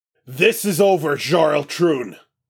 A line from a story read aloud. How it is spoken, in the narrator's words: Parker roars, Guardian speakers amplifying her voice